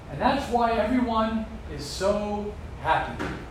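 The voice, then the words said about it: Sarcastic delivery. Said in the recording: “That was sarcastic”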